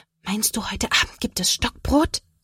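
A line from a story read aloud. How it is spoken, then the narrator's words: Whispering. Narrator (German): Sophia flüstert zurück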